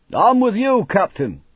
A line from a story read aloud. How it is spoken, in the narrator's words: shouted a fair-headed sailor